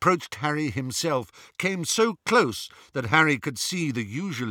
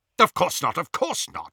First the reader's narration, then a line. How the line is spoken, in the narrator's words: said Lucius impatiently